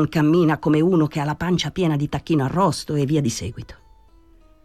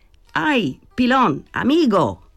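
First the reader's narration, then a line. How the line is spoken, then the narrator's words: Shouted. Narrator (Italian): Gridò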